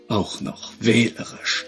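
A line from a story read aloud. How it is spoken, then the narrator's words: Murmuring. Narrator (German): murmelte Liam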